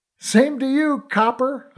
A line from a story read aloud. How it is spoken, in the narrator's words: I shouted